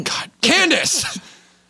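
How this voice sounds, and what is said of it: Yelling. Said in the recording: “Oh, sorry. Not yelling.”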